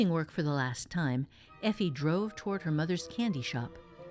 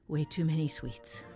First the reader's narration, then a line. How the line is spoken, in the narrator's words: muttering